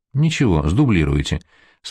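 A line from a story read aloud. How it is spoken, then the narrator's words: Calm reply. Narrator (Russian): спокойно отозвался Сарычев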